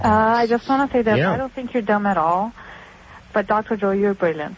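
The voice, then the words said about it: Slight Brazilian accent. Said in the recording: “I detect a little bit of an accent. Where are you from? ... Brazil.”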